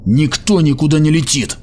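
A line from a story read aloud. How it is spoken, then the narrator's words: Shouting. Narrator (Russian): крикнул ему Ханник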